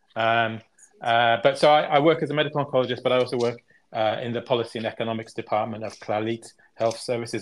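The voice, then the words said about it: English accent. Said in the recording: “English now accent ... Very ... English ... Accent.”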